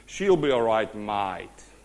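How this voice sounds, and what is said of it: Put-on Australian accent. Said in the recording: “he had a little bit of Aussie influence in him ... let me say it in the Aussie accent”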